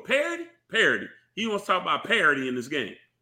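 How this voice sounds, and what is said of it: Impression of Jimbo. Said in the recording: “That was my Jimbo impression. ... That's pretty good, actually. That sounded pretty good.”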